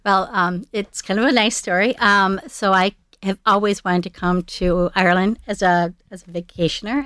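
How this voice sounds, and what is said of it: American Minnesota accent. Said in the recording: “judging from that beautiful accent, ... You're from Minnesota.”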